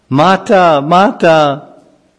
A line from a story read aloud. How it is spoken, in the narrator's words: he cried out